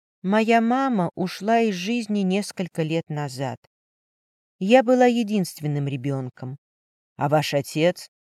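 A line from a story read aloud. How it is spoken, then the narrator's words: Quiet speech. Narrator (Russian): Диана тихо произнесла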